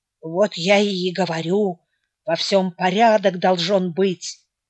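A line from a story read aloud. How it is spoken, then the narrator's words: Sleepy mumble. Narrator (Russian): пробормотал Кирилла с просонья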